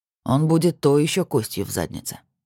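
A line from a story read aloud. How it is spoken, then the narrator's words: Gloomy prediction. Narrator (Russian): мрачно спрогнозировал Костин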